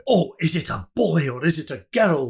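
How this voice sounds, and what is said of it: Put-on Scottish accent. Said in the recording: “hence why I went into a Scottish accent there”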